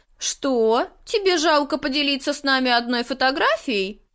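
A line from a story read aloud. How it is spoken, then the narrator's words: Girl giggling. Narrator (Russian): Девочка хихикнула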